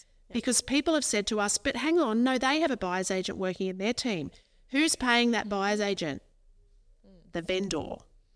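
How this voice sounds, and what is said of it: Raised, passionate voice. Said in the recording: “I'm raising my voice. I'm getting passionate now.”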